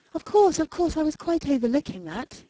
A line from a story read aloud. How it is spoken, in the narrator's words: exclaimed Mrs